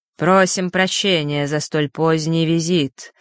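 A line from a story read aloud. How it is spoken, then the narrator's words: Harsh guttural spirit voice. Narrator (Russian): резким гортанным голосом произнес дух Осталы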